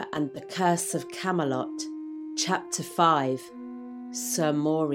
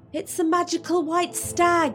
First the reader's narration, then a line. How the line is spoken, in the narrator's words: called out Oddjob